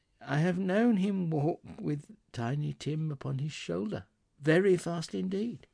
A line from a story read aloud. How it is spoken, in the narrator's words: she said, and in a steady, cheerful voice that only faltered once